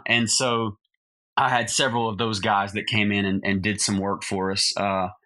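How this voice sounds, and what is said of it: Southern US accent. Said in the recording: “the only thing country about me, Chris, is a Southern accent”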